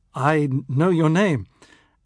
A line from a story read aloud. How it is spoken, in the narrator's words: I stuttered